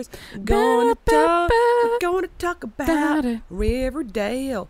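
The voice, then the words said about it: Slight twang. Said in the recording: “that little twang”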